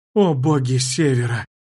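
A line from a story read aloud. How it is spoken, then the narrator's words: Stunned female whisper. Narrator (Russian): Ошеломленно прошептала она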